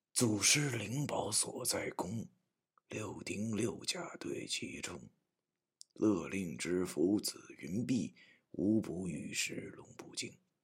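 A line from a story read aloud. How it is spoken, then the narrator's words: Soft-spoken. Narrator (Chinese): 轻声地说道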